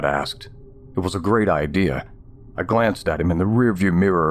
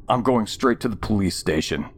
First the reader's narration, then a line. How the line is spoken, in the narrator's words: I said